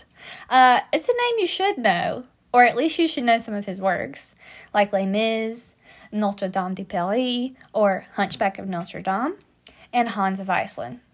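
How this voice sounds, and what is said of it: American English accent. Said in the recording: “Victor Hugo in my American accent.”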